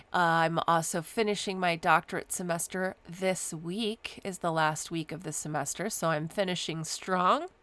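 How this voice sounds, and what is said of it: Slightly sick, congested voice. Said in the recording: “If you can't tell from my voice, I'm also fighting a little bit of a cold”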